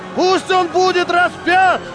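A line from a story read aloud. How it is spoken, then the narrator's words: Crowd shouting ever louder. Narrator (Russian): толпа кричала все громче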